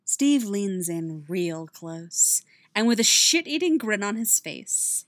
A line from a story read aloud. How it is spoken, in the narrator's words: he says, voice a low purr